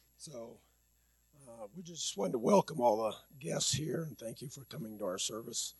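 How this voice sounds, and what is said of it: Hoarse voice. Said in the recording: “I'm kind of hoarse this morning, too.”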